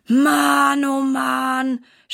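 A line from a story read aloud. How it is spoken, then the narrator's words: Groan. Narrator (German): stöhnt Silas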